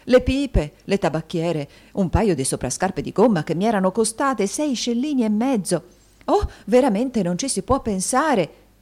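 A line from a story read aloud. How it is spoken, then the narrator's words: Matrons shouting together. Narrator (Italian): gridarono le matrone in generale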